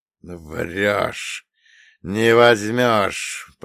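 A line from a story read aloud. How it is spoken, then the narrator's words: Hoarse wheeze, bloody mouth. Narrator (Russian): прохрипел я, чувствуя, как наполняется кровью мой рот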